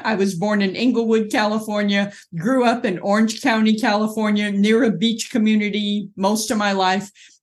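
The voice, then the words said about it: Southern Californian American accent. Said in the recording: “you've got a beautiful accent different to mine ... I am originally from Southern California”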